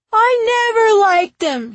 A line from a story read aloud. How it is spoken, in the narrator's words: he shouted back